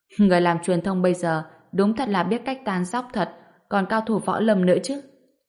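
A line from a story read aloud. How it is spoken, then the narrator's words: Laughing aloud. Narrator (Vietnamese): Lam Linh bật cười thành tiếng nói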